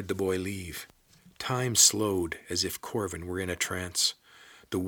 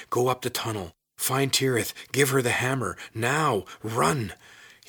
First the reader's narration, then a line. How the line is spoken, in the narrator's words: whispered hoarsely